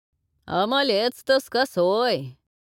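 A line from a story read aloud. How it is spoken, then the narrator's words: Reporting while guffawing. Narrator (Russian): сообщил Сорока, не прекращая хохотать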